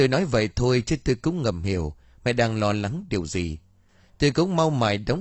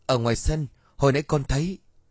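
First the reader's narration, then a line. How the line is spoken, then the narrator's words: Frightened broken stammer. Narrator (Vietnamese): Tôi sợ hãi lắp bắp nói mãi không thành câu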